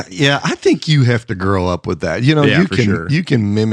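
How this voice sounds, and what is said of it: Usual voice. Nothing is said of it.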